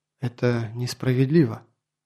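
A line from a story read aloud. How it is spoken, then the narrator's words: Quiet. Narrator (Russian): Толла тихо произнесла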